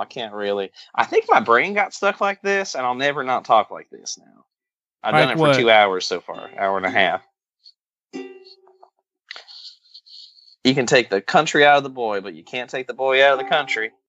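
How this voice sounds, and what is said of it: Fake country accent. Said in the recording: “my country accent would be a little bit closer to my real country accent if I had been drinking tonight ... I love how I'm doing Which a fake one? Country accent when I actually do have a southern accent.”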